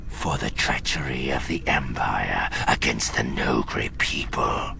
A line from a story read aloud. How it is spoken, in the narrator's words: Rook's voice said quietly from beside him